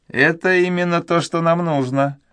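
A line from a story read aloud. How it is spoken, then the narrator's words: Happy. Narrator (Russian): сказал он, радостно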